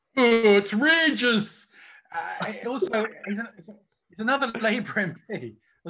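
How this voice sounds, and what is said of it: Impression of Ian Lavery. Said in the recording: “Was that not a good impersonation?”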